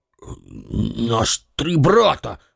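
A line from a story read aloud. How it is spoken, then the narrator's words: Mumbled. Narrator (Russian): бормочет Денис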